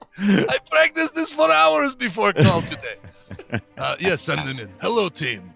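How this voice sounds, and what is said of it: Spanish accent, Guillermo del Toro. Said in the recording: “Let's get out of the Russian accent. Switch over to Spanish accent.”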